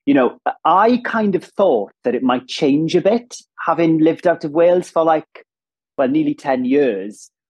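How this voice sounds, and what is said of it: Strong Welsh accent. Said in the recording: “a very distinctive Welsh accent ... i'm from Ammanford in southwest wales ... i think when it's that strong”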